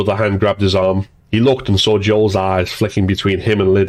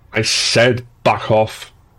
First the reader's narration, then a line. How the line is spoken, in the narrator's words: growled